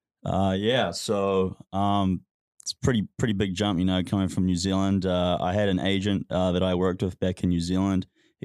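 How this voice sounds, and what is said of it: New Zealand accent. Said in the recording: “he's from New Zealand, got a nice accent to him”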